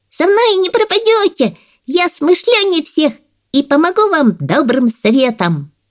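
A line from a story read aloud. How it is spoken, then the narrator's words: Squeaky high voice. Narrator (Russian): Микки-малыш пропищал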